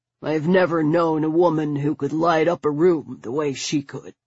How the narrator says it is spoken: he said, his voice suddenly thick with emotion

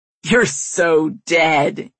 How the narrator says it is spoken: he shouts, laughing

